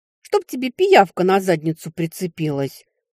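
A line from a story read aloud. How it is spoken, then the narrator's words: Girl muttering after someone. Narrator (Russian): буркнула девушка вслед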